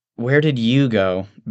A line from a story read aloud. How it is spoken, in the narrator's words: Vanden sighs